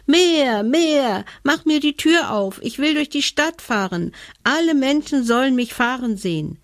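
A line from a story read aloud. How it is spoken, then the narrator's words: Screaming. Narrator (German): schrie Hebelmann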